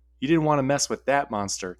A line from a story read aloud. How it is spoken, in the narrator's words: Terry said